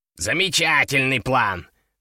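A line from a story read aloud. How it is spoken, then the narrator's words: Snort. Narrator (Russian): фыркнул Кеша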